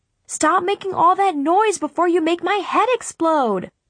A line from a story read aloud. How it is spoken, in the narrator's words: I yelled